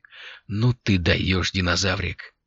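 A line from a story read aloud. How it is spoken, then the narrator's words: Muttered. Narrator (Russian): пробормотал Алири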